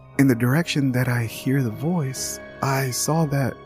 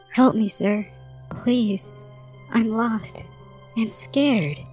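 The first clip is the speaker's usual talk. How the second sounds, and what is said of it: Faint child's voice. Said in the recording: “I hear a child in a faint voice.”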